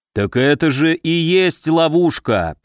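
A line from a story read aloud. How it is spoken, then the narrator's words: Low booming voice. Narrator (Russian): прогудел Викула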